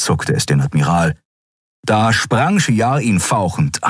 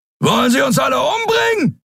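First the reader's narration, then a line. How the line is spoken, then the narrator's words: Roared. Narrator (German): brüllte Sron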